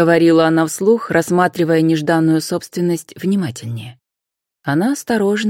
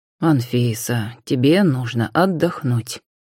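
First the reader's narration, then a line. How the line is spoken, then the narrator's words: Gentle. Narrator (Russian): мягко произнес Иван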